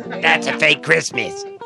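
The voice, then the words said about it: Uncanny imitation of another man. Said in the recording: “Now watch my imitation. ... It's uncanny.”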